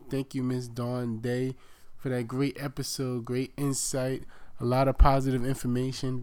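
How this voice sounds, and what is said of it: Voice sounds sick, under the weather. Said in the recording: “I've been kind of under the weather, and you probably can still hear it in my voice.”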